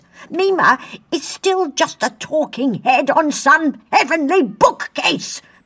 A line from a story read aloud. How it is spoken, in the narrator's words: Pete spat furiously